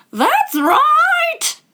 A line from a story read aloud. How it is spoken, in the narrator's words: shouted the Queen